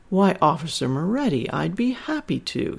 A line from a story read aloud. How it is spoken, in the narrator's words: Sandra giggled